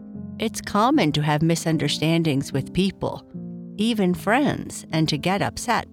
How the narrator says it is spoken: Papa Bear said

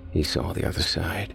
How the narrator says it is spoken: Rob murmured

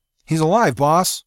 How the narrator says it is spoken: Mackett cried

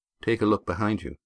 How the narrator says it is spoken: said Astraea calmly

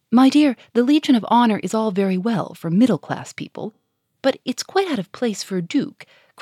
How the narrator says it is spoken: cried Germain

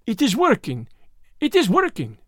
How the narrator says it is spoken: cried the Frenchman, and there was a crack in his voice as he spoke, which told me that he was also strung to his tightest

